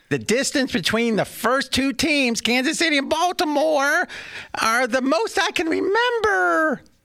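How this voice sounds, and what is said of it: Imitates another person's voice. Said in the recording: “I'm going to try to imitate you here. It might not be exactly right ... Was that a good imitation? ... Yes.”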